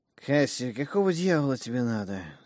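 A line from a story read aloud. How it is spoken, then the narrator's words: Sleepy mumble. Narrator (Russian): сонно пробормотали откуда-то из угла комнаты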